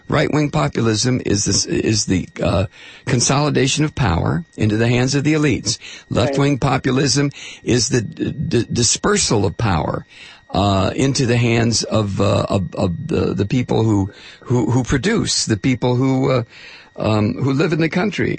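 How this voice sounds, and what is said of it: Strained, failing hoarse voice. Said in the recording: “I'm losing my voice again.”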